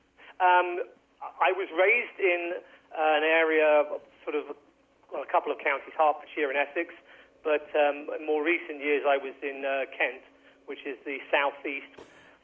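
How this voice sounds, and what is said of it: English accent. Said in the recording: “I hopefully haven't lost the accent ... where in England are you from?”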